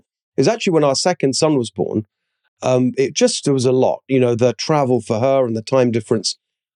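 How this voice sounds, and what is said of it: Noticeable non-American accent. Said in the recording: “Less people are confused by the accent.”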